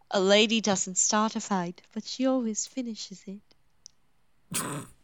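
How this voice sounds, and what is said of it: Poor put-on British accent. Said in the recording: “That was a horrible accent. ... I can do a better British accent when I want to try.”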